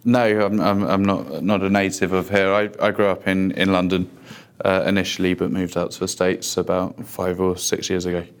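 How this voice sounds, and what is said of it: London English accent. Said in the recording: “is originally from London ... judging by your accent, you're not from Austin.”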